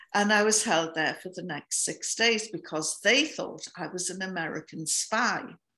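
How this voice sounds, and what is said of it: Northern English accent. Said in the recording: “they didn't recognize my accent. I come from the north of England by the Scottish border.”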